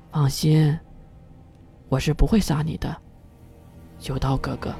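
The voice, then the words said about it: Soft whispered line. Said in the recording (Chinese): “贴着九刀的耳朵小声的轻语了一句”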